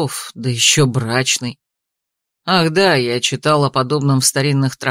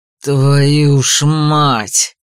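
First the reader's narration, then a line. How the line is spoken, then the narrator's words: Growling exclamation. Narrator (Russian): рычаще воскликнул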